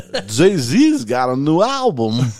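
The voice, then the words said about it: Imitates another person's voice. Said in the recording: “that's my best and only impression ... That's a good one”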